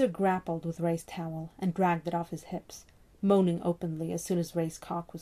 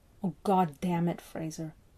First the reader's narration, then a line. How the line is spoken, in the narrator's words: Ray groaned